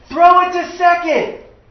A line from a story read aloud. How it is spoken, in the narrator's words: another voice was shouting